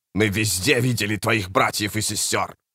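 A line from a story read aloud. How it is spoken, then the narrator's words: Growling. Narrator (Russian): прорычал Баргаст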